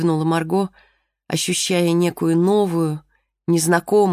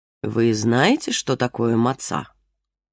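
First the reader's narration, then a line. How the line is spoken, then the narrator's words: Plain question. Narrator (Russian): спросила Ребекка Моисеевна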